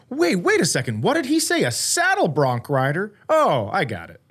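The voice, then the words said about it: Imitates a confused listener. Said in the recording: “impersonation of people listening”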